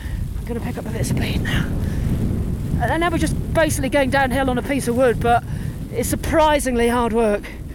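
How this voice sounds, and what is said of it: Out of breath. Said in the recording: “I'm getting a little bit out of breath now.”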